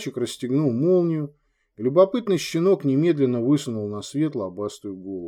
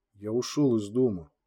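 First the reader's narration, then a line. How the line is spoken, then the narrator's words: Quiet. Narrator (Russian): тихо произнес Джанни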